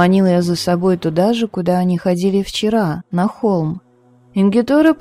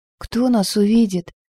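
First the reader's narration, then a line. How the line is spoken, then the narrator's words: Trembling whisper. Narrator (Russian): дрожащим голосом прошептала она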